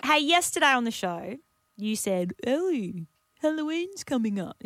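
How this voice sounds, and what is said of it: Imitates another person's voice. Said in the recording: “That's a great impression. ... this is my uncanny Taz impersonation.”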